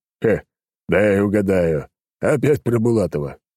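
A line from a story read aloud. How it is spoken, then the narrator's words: Old man chuckling. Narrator (Russian): хохотнул старик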